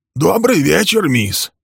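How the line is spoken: Hoarse, nervous greeting. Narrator (Russian): приветствовал он Милли хриплым от волнения голосом

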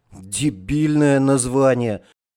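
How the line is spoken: Grumbling, calming down. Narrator (Russian): проворчал Славка, успокаиваясь

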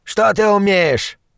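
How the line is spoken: Barked. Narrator (Russian): рявкнул

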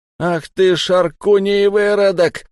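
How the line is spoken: Howling. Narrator (Russian): взвыл Зиан

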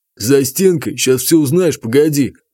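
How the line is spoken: Wrestler's growl. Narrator (Russian): прорычал борец

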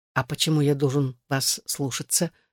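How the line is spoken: Gentle, smiling. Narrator (Russian): сказал он, мягко улыбнувшись

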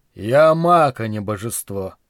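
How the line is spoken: Sighing. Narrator (Russian): вздохнул Верховный

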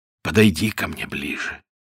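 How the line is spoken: Inaudible voice. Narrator (Russian): царь отвечал неслышным голосом

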